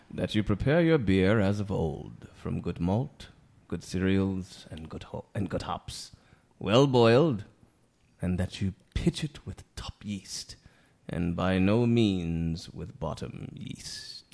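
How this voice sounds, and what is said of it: Impression of a legendary beer king. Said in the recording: “Is that your Gambrinus impression there?”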